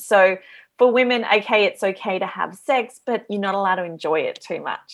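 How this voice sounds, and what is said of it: Australian accent. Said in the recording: “As you can probably tell from my accent, I'm from Australia.”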